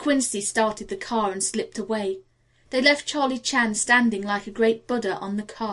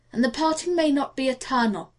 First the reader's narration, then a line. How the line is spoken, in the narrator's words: Chan added cheerfully